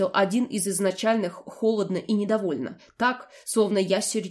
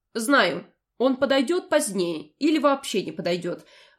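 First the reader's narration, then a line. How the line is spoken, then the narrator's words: Calm answer. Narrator (Russian): ответила спокойно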